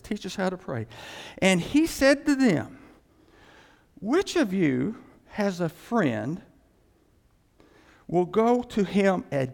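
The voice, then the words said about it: Slow, deliberate reading. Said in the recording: “read it slowly”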